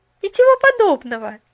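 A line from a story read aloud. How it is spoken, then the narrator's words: Cheerful objection. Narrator (Russian): весело возразила Поллианна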